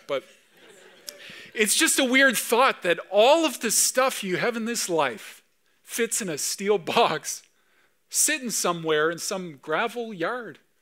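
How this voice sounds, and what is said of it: Emotional, choked-up voice. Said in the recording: “I don't know why I'm getting emotional at that”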